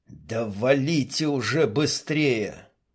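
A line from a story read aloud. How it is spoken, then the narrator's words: Strained whisper through teeth. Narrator (Russian): шепотом процедил Виктор, поморщившись от мерзких ощущений в голове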